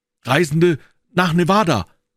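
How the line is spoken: Called out. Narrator (German): rief Jefferson Hope

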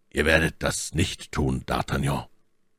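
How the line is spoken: Cold. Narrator (German): sprach Athos kalt

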